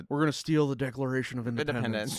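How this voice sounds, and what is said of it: Imitates another person's voice. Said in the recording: “That's a good impression. ... Yeah, you got your cage down.”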